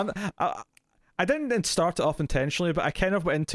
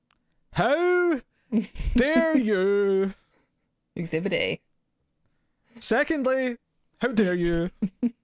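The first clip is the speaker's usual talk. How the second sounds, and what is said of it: Exaggerated shocked voice. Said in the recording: “trying to do like a John Lithgow style of like shocked voice ... in my own accent, I wasn't trying to do an actual impression”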